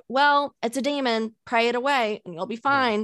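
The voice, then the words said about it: Put-on Southern accent. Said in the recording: “the accent there. That's a good,... That's a good Southern accent.... Solid.”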